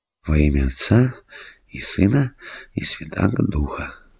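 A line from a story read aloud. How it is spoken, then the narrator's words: Whispered. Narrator (Russian): шептал он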